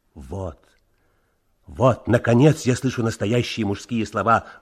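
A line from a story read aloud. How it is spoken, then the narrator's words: Admiring exclamation. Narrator (Russian): воскликнул Леонид Цымбал с восхищением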